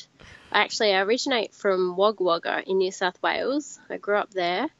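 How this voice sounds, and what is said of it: Australian accent. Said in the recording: “you don't sound like you've got a West Indies accent ... I'm Australian”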